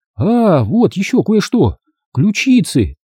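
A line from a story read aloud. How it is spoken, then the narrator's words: Exclaiming. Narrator (Russian): воскликнула Аня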